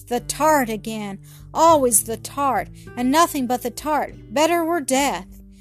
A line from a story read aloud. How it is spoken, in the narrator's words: cried they with anguish